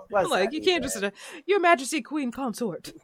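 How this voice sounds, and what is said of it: Attempted British accent. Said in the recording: “That was not my British accent. ... That was not my attempt. ... that was giving, like, wild thornberries.”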